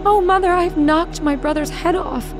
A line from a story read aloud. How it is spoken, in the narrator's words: Marlene was terrified and began crying and screaming and said